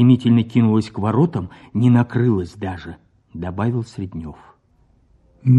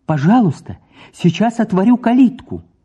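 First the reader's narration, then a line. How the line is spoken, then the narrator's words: Joyful welcoming shout. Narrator (Russian): крикнула в форточку, радостно-радушно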